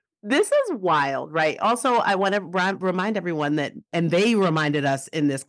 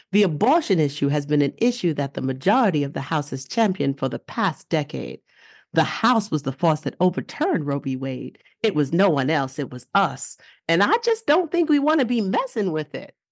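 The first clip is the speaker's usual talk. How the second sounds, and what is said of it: Put-on Mississippi accent. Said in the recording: “I'm going to say it in my best Mississippi accent, which I don't even know what it sounds like ... How'd that sound? ... That sounded great.”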